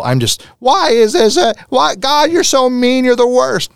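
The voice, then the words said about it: Impression of a struggling, complaining person. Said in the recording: “my impression of somebody who's struggling, not very nice or fair”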